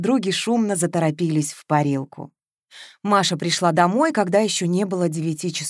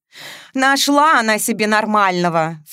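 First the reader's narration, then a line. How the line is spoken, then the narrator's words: Snort. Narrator (Russian): фыркнула Вероника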